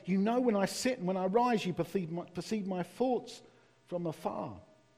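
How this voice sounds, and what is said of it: East London accent. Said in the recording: “See my East London accent come out there, did you? Did you notice? Thoughts.”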